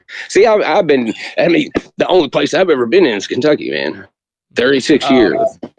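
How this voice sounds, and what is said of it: Noticeable regional accent. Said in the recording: “I hear it in your accent. Can hear it in your accent.”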